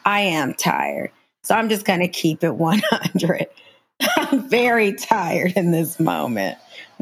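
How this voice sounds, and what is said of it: Tired-sounding voice. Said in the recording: “my voice is very tired”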